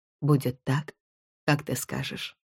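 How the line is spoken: Very quiet. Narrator (Russian): совсем тихо произнес он

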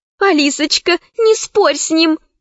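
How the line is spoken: Pleading. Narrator (Russian): взмолилась Заури

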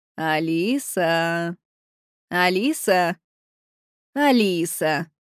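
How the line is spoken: Teacher's sing-song chant. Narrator (Russian): произнес учитель нараспев

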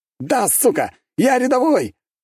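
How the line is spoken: Soldier shouting out. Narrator (Russian): выкрикнул один из бойцов

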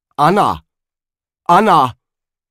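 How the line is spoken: Father calling across rooms. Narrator (German): rief der Vater durch das Vorzimmer in die Küche

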